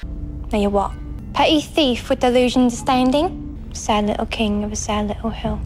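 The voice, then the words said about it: Exaggerated put-on Cockney accent. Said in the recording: “suddenly goes Cockney ... her Cockney accent ... It's a bit Dick Van Dyke ... It's a little bit ... It's no worse than Patches”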